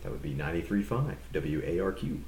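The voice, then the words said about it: Radio DJ announcer voice. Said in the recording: “the radio voice”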